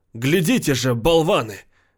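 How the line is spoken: Shout. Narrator (Russian): крикнул Марк

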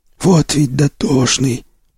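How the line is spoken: Hoarse wheeze. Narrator (Russian): прохрипел излом

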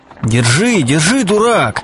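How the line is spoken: Shout. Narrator (Russian): кричал Чичиков Селифану

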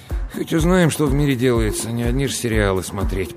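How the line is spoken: Grumbling. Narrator (Russian): пробурчал он

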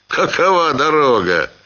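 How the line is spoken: Asked, then laughing. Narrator (Russian): спросил Ханов и засмеялся

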